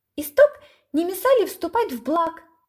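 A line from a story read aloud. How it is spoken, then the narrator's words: Thin squeaky voice. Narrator (Russian): пискнул тоненький голосок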